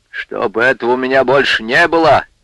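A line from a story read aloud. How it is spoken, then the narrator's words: Angry. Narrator (Russian): сердито сказал Степан Андреянович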